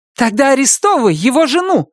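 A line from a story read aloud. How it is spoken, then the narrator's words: Heated shout. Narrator (Russian): запальчиво выкрикнула Анна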